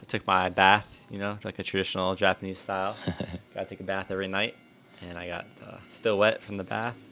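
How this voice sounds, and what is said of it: Low, sleepy bedtime voice. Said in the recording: “the low voice of ... here ... my sleepy bedtime voice ... I got my low voice, my radio voice”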